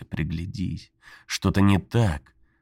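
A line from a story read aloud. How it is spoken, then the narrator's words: Pleading inner voice. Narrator (Russian): Внутренний голос взмолился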